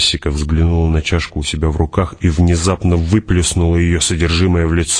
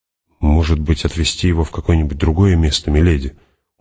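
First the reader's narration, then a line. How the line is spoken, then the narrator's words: Dejected question. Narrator (Russian): уныло спросил он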